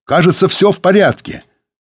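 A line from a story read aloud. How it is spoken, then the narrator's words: Distant shout. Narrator (Russian): Сергей крикнул из павильона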